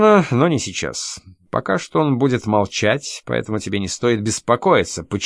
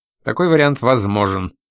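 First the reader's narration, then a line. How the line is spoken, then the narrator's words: Dry. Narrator (Russian): сухо оценила миссис Трэмбли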